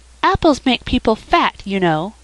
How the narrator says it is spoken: said Felicity sweetly

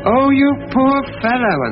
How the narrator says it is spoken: The barmaid sobbed

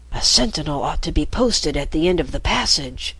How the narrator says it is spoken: Marco whispered

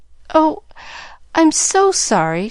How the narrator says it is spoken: faltered

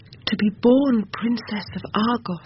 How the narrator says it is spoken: she cried, her voice ringing like gold on marble

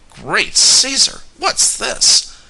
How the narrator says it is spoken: groaned Tom

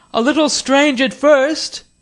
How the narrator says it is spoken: shouted

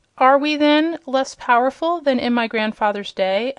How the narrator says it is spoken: asked Prince Inga

